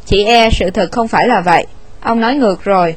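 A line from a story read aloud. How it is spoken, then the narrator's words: Cold reply. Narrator (Vietnamese): Winston lạnh lùng đáp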